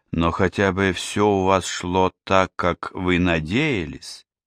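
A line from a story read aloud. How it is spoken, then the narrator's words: Softer question. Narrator (Russian): Диана спросила напоследок уже более мягко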